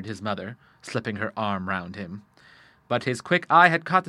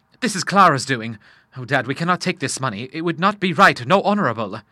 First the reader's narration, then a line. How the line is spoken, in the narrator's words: he cried, flushing